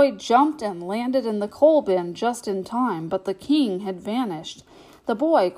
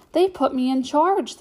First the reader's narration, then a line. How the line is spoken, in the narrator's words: the girl announced happily